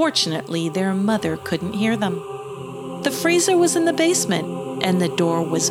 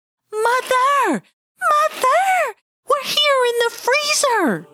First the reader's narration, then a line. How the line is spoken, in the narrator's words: they both began to scream